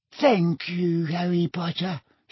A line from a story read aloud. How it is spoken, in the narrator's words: he panted